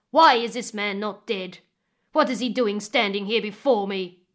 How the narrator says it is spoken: the chief roared when he saw Eleio

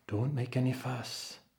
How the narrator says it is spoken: whispered the abbot

